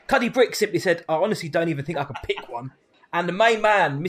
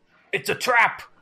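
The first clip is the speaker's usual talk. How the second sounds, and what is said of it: Bad Admiral Ackbar impression. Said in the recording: “Worst impression ever.”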